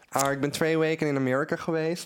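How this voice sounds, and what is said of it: Dutch spoken with American accent. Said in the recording (Dutch): “Oh nee, met het accent. ... Ik kan het echt goed nadoen. Zo klinkt echt een Amerikaan die naar Nederland emigreert.”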